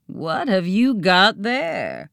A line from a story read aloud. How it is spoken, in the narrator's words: the spooky words that had just rasped